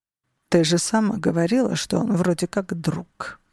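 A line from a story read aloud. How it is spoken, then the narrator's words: Mutter. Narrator (Russian): пробормотал Алессандро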